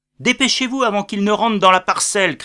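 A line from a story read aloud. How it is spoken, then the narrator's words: Major shouting. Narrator (French): cria le major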